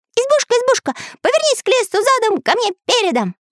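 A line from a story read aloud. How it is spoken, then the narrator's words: Loud. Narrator (Russian): громко произнес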